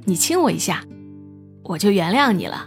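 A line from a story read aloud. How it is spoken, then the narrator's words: Laughing. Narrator (Chinese): 青子笑着说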